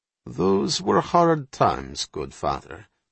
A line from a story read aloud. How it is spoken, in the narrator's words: Platinoff said smoothly